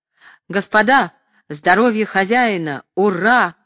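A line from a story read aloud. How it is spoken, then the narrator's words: Shouting. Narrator (Russian): закричал Остроухов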